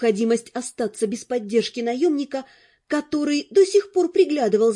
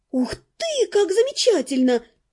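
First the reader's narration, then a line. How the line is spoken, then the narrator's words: Exclaiming. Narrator (Russian): воскликнула я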